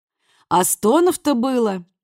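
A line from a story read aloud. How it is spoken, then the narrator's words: Cheerful remark over phone. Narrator (Russian): весело заметили на том конце линии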